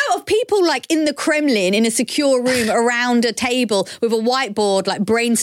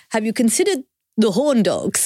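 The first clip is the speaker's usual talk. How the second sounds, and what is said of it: Vague Central European Bond-villain accent. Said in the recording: “whatever accent that was? What in the name of God? It sounded like you were about to threaten James Bond... I was going for like James Bond villain... Somewhere in Central Europe”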